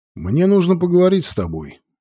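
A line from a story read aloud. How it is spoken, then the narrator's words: Plain. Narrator (Russian): сказал майор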